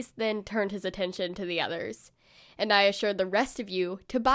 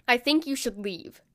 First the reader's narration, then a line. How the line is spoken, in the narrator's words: Grayson told me curtly